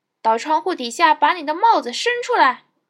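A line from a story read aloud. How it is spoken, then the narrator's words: Loud shout. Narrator (Chinese): 一个同样的声音高喊道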